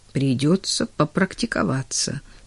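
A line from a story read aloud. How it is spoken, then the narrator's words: Muttering. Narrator (Russian): пробормотал Клейтон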